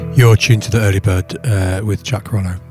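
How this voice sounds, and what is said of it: Radio announcer voice. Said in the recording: “I'm adopting my radio voice.”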